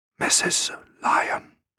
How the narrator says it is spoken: The man ... asked in a whisper

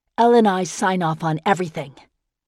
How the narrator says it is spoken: Leela said, her tone unusually sharp

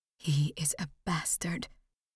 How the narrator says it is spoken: whispered

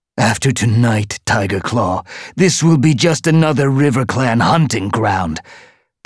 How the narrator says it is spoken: the tom spat back

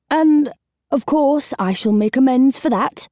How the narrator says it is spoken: said urgently into the silence

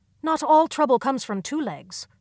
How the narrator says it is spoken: Blue Star snapped

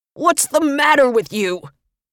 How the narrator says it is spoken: roared with his last ounce of strength

